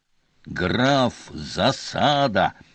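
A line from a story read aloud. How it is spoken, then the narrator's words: Growling. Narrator (Russian): зарычал Певер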